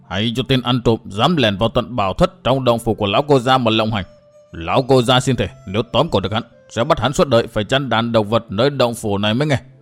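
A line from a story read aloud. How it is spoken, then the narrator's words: Old man's angry growl. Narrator (Vietnamese): giận dữ, lão gằn giọng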